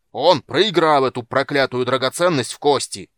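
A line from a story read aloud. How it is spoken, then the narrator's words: Full-lung angry bellow. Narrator (Russian): заорал во всю мощь легких Дуган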